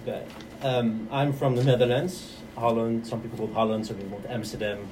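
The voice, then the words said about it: Dutch-accented English. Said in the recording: “We already hear the accent”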